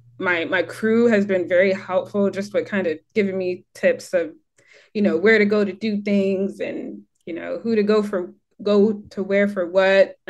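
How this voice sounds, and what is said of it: American accent. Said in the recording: “they'll hear my accent and realize that I'm not from Bermuda and they're like, you're American.”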